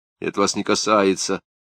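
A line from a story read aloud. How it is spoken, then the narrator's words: Dry reply. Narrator (Russian): сухо ответил Василий Никандрович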